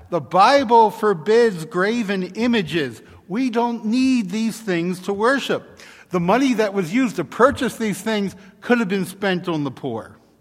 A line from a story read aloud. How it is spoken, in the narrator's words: they shout back